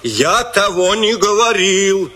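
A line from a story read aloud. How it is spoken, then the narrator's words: Shouting. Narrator (Russian): закричал он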